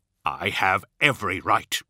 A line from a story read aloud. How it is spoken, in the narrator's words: he snarled